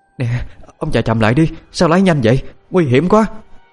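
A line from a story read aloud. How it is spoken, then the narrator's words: Frightened woman. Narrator (Vietnamese): Bà Kim sợ hãi nói với chồng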